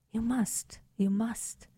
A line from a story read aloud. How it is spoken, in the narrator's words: she whispered